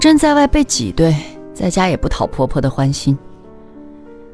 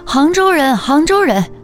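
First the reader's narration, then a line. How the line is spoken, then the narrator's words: Children shouting wildly. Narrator (Chinese): 小孩们发疯似的叫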